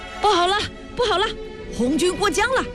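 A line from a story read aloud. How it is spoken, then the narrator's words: Frightened shout. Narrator (Chinese): 敌人吓得大叫起来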